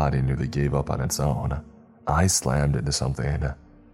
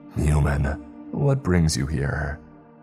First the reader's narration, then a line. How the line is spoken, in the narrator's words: A raspy voice